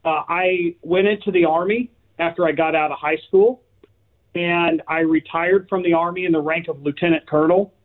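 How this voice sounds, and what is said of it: Regional non-local American accent. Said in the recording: “this funny accent, I'm not originally from Western or Central New York”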